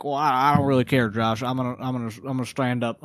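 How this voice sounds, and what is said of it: Put-on accent. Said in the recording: “I know I did an accent.”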